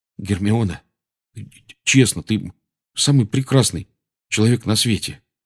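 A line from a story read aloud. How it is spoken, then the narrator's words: Babbling. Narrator (Russian): пролепетал Рон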